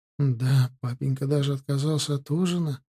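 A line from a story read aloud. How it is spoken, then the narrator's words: Sad. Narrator (Russian): грустно вымолвила Вероника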